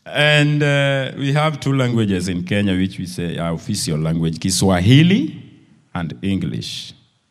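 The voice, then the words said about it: Kenyan-accented English. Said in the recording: “even if our accent is not going well”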